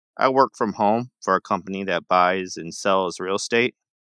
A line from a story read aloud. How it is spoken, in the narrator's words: Kate answered